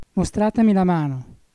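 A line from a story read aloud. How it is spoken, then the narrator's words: Trembling and sighing. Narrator (Italian): disse il principe tremando e sospirando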